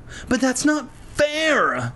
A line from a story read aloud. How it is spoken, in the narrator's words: Lefty whined